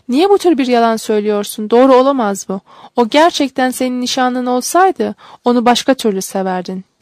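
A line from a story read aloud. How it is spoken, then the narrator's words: Cried out. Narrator (Turkish): diye haykırdı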